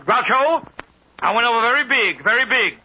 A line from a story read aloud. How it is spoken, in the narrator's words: When Sophie came down the gangplank, she spotted Groucho and yelled